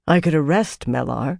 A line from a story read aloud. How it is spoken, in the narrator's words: she said quietly